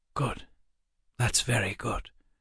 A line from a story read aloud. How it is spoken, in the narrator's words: Waylon said softly